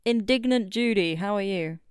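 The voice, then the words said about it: Weird character voice. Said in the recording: “weird voice”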